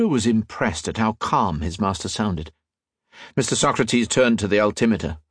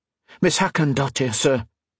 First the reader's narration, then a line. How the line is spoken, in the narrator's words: he exclaimed